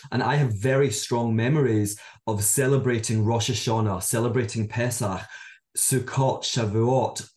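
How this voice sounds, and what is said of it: Scottish accent. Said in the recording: “I'm from Scotland, as many of you can probably tell by my accent”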